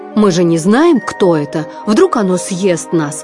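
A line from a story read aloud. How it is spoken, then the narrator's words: Grumbling. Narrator (Russian): проворчал Марлин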